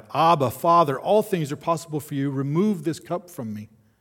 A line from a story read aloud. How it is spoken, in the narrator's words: Jesus cried out